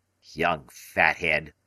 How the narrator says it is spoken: he grumbled

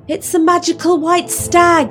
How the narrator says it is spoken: called out Oddjob

